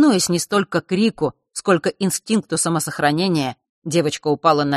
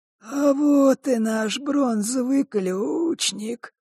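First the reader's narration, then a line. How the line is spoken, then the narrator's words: Creaky voice. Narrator (Russian): проскрипел Клокер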